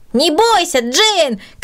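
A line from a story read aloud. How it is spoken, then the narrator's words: Shouting. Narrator (Russian): кричал Петя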